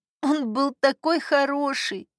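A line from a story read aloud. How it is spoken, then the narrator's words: Sobbing. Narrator (Russian): всхлипнула Нина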